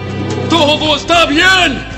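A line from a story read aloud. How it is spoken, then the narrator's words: Shouting. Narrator (Spanish): Ahimaas le gritó al rey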